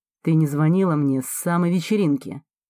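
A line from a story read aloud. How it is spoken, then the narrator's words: Tense, displeased tone. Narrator (Russian): напряженным и недовольным тоном заявляет он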